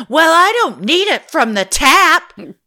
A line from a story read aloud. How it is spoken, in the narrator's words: almost shouted